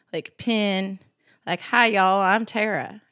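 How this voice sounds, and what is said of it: Thick Southern American accent. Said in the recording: “that sweet Southern accent. It was thick, too ... It was very thick.”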